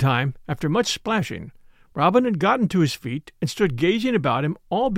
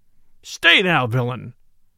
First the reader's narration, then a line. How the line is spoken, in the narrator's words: roared